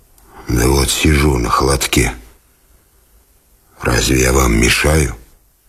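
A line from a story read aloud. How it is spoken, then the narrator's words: Hoarse reply. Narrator (Russian): Он отвечал хриплым голосом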